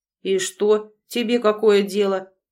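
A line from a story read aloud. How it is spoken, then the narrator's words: Rude question. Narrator (Russian): грубо уточнил он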